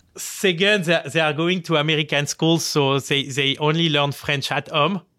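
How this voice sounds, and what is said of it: French-accented English. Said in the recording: “they make fun of my accent every day”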